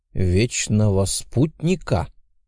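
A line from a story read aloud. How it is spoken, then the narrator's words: Pensive, through gritted teeth. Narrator (Russian): процедил я задумчиво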